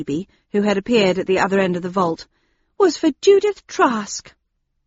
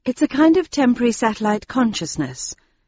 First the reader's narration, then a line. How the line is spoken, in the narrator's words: I said in a soft voice